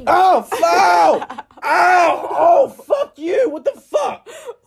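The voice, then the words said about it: Yelling in pain. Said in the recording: “Why are you yelling?”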